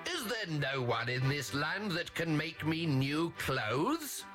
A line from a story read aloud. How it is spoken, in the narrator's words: he bellowed again